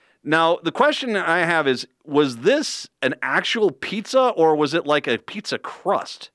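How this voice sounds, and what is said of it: Usual voice. Nothing is said of it.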